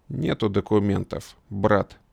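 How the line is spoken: Calm, lazily contemptuous. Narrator (Russian): спокойно, с презрительной линцой ответил тот

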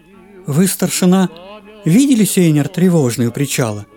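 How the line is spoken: Soft question. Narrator (Russian): мягко спросила Нина Александровна

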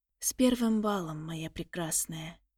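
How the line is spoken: Quiet speech. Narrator (Russian): тихо произнес он

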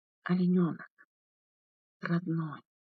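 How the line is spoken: Whispered with heavy sobs. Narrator (Russian): прошептал он с тяжелыми всхлипами

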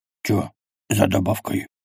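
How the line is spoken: Whispered question. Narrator (Russian): шепотом спросил Квас

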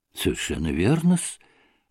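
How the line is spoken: Muttering, voice breaking. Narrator (Russian): пробормотал уже пресекшимся голосом Смердяков

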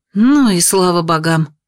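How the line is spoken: Relieved exhale. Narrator (Russian): выдохнула Наташа

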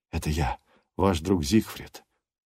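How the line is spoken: Whisper. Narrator (Russian): шепот

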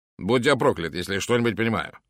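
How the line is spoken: Grumbled. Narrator (Russian): проворчал

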